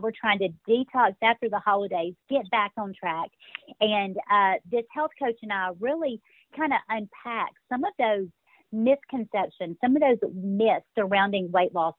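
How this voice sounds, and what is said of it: Slight Southern US accent. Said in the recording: “I hear a little bit of a Southern accent there ... I grew up in Birmingham, Alabama ... the accent gets a lot stronger as I'm feeling very passionate about a subject”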